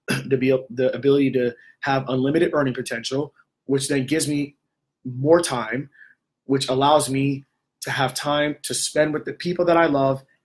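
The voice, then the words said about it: Hoarse, failing voice. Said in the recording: “my voice is going”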